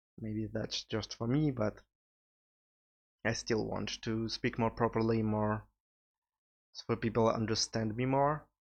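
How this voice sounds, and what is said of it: Speaks with a noticeable accent. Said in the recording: “my sometimes annoying accent”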